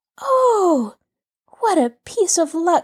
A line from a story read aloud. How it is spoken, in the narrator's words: she exclaimed